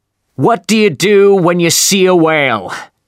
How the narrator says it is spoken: he suddenly shouted

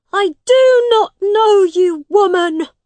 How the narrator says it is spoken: Tom shouted at his mother

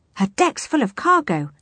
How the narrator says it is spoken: added the lookout excitedly

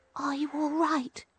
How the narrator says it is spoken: she whispered

